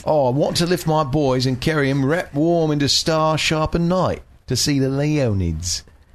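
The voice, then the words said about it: Dick Van Dyke-style British accent. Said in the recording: “reread it in a British accent ... That's my best British. No, that's actually my Dick Van Dyke British. That's from Mary Poppins.”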